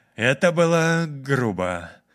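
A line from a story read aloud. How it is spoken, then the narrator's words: Uncertain man. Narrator (Russian): неуверенно проговорил мужчина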